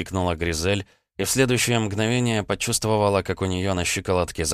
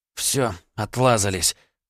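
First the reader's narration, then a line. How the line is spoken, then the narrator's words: Hoarse rasp. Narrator (Russian): прохрипела тень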